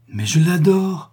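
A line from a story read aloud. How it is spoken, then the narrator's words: Slightly anxious exclamation. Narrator (French): s'écria Max, un peu inquiet, malgré lui, de tant de solennité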